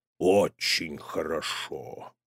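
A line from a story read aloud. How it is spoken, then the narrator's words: Drawling. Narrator (Russian): протянул папа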